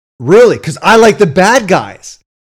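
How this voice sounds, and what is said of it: Yelling loudly. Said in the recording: “Why are you yelling? ... you're like yelling. You're gonna blow people's eardrums out.”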